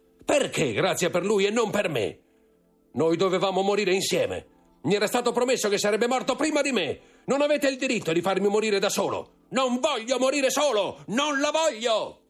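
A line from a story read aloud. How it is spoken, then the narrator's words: Screaming and roaring. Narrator (Italian): urlando, ruggendo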